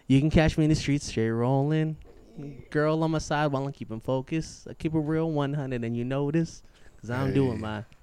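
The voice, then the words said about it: Rapping with a country twang. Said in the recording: “Kind of sounds country. ... It's just the way he's saying it. Oh, just sound country. ... Twang.”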